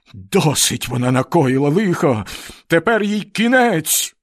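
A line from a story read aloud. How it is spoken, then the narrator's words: Exclamation. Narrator (Ukrainian): вигукнув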